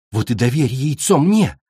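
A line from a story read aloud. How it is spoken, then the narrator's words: Exclaimed. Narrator (Russian): воскликнула цунами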